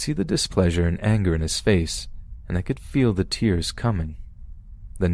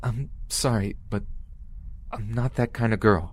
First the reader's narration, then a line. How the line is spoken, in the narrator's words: I said to him in a terrified, cracking voice